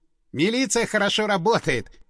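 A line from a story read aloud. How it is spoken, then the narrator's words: Snorting, then guffawing. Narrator (Russian): хмыкнул Стас и, не сдержавшись, откровенно заржал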